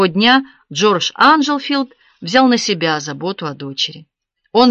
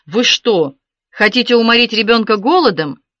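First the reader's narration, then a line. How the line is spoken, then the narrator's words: Thundering angry voice. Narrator (Russian): он сверкнул глазами и прогремел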